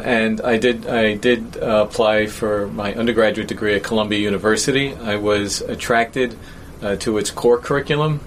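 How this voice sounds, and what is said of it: New York accent. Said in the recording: “I, grew up in New York, uh, as you probably know and can tell by my accent”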